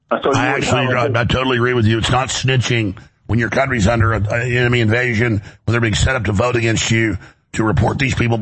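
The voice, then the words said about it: Hoarse, strained voice. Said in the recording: “my voice is out today. I know it's annoying.”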